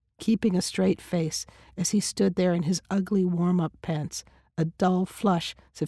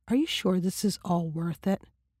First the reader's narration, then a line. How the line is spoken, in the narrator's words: she asked him quietly